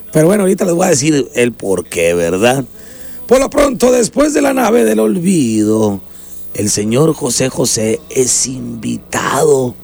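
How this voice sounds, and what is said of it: Hoarse, weakened voice. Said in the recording (Spanish): “andas imitando la voz de José José, cuando ya no tenía voz ... así quedó, y con la voz, con la que traigo yo”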